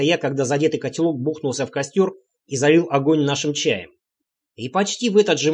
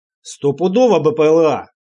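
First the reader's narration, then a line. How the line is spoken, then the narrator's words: Near yell. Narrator (Russian): почти заорал Санек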